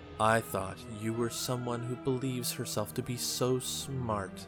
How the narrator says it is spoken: Savathun purrs

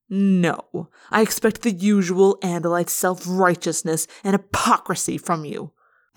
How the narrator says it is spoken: Eslan spat

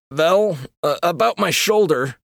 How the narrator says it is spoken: Eric whimpered

